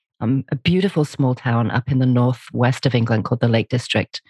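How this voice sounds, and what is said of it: English accent. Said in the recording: “I have an accent and I'm originally from England”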